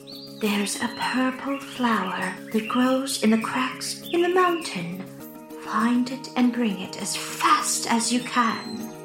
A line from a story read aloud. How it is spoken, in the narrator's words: Golden Horn whispered to Zala